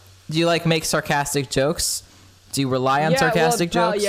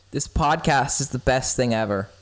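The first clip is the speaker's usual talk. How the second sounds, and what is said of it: Sarcastic tone. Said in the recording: “You could totally tell I'm being sarcastic here. ... 100% sarcasm.”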